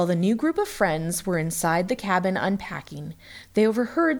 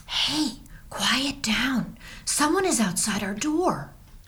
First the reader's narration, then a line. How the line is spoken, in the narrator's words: whispered Skylar